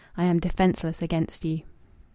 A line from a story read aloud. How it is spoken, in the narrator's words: as if she were murmuring to him